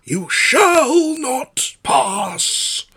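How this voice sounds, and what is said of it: Wizard character impression, dying-sounding voice. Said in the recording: “How's your Gandalf? ... Well, that's pretty good. It sounds like he's dying.”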